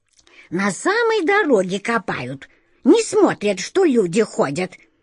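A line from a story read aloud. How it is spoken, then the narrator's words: Indignant old woman exclaiming. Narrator (Russian): Возмущенно воскликнула проходившая мимо старушка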